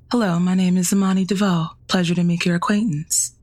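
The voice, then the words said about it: Stiff, robotic non-Southern accent. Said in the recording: “Can you practice right now and talk to me in a non-Southern accent? ... You sound like one of those robots. It's got to be more natural.”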